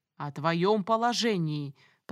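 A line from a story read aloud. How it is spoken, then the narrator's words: Thundering voice. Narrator (Russian): прогремел Нимпир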